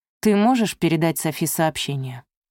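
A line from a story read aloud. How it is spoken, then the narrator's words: Pointedly calm question. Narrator (Russian): спросила Изольда подчеркнуто спокойно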